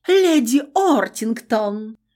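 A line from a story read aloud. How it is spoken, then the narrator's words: Pompous exclamation. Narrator (Russian): пафосно воскликнула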